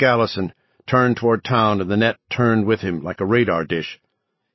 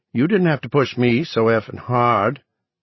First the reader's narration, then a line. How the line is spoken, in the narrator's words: Newt said sulkily